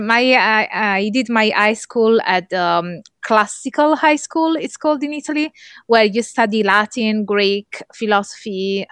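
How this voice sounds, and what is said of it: Italian accent. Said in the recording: “I am born and raised in Italy, as you may tell by my accent.”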